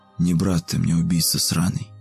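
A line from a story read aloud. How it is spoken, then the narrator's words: Whispered. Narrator (Russian): прошептал Игорек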